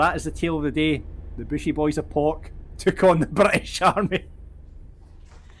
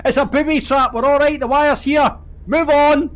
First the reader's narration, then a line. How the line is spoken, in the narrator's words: yelled back